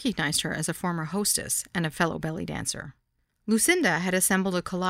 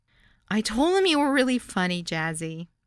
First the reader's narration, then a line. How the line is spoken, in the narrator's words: a woman shouted